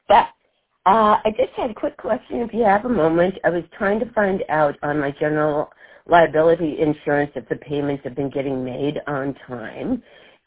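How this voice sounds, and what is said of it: Slightly strange, sick-sounding voice. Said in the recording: “I'm a little bit sick, so my voice is a little strange.”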